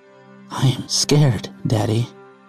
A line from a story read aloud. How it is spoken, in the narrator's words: She said with her voice shaking